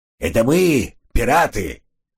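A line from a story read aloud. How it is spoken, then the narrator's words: Shouting in pirate voice. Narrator (Russian): крикнул он пиратским голосом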